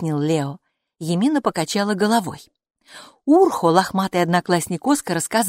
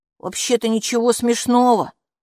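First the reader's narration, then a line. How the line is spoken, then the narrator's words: Snapped. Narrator (Russian): огрызнулся Урхо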